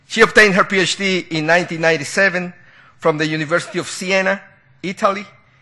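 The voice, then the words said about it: Non-native English accent. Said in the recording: “Excuse me for my accent.”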